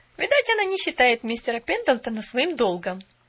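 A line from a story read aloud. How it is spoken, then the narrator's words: Snide suggestion. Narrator (Russian): весьма ехидно предположила Нэнси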